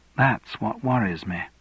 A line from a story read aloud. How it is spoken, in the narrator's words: whispered Elizabeth